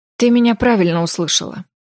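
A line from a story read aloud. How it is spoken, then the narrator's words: Sighed. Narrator (Russian): вздохнул Рай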